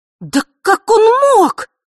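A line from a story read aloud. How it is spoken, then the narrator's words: Contemptuous exclamation. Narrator (Russian): воскликнула она с презрением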